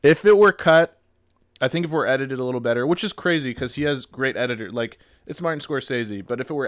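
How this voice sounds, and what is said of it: Usual voice. Nothing is said of it.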